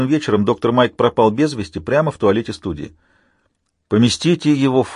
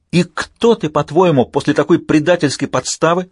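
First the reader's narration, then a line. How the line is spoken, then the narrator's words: Shouting woman. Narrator (Russian): закричала она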